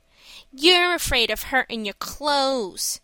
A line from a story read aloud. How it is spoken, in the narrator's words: said Mickey with a sneer